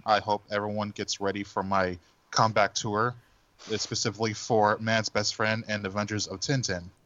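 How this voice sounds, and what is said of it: Mock NPR radio-host voice. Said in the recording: “I'm practicing my NPR voice for this session... like a lizard version of Ira Glass”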